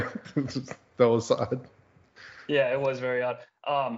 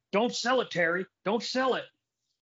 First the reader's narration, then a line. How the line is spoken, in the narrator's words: kept yelling in the commentary